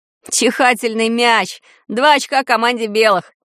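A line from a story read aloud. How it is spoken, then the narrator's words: Laughing. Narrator (Russian): засмеялся Ванька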